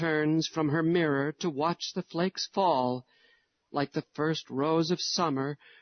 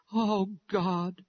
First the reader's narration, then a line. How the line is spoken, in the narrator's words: her sighs have stifled the voice of her prayer